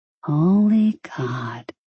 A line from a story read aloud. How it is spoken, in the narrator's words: she breathed